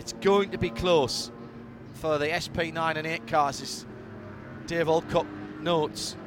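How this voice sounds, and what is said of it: Northeast English accent. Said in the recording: “without the northeast accent”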